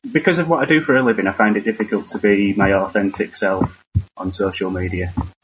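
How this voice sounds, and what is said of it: Northern English accent. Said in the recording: “Your accent is that Idaho? ... It's uh, Northern England.”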